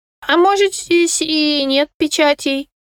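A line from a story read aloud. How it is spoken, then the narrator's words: Squeaky whisper in ear. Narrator (Russian): пропищал Кусимар мне на ухо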